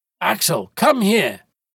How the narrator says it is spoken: the professor shouted

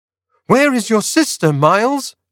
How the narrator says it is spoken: I cried

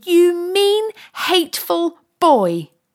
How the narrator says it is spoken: shouted

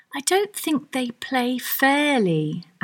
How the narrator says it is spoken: Alice said

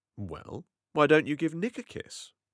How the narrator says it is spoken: Daisy said back

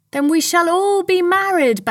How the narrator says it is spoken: Bassanio cried

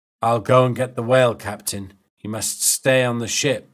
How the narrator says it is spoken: said Starbuck

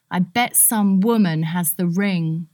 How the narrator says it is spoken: Portia cried

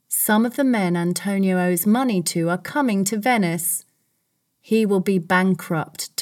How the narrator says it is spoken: Tubal said

